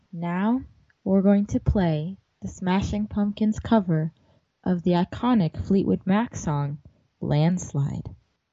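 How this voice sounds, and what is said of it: Sultry radio DJ voice. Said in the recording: “sultry DJ voice”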